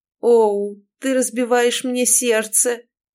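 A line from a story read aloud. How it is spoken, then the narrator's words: Theatrical moan. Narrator (Russian): тотчас простонал мужчина, возвращаясь в свое привычное амплуа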